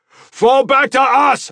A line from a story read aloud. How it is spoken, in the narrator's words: I shouted to them